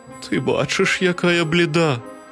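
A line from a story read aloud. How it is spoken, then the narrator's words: Weak feeble voice. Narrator (Ukrainian): кволим голосом відказала хмара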